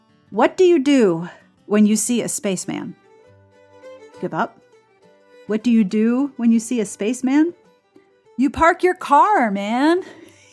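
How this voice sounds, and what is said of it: Mock-serious announcer voice. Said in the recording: “serious voice.”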